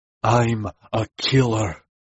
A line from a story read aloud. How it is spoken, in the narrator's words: he hissed, his neck cording at the effort it was taking not to kill us where we stood